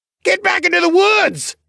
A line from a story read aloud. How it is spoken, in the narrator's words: someone shouted